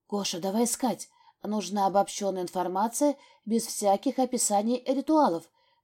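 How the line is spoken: Whisper. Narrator (Russian): прошептала я ему

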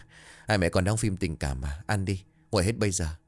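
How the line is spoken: Bursting out laughing. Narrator (Vietnamese): Minh Khang bật cười

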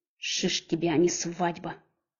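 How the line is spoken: Growling. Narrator (Russian): рычал кучерявый качок

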